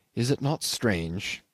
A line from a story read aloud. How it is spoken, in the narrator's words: he went on in a gentle, almost yearning tone